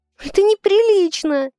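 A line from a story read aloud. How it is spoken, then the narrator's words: Uncontrollable sobbing. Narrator (Russian): Всхлипываю я, не в силах успокоиться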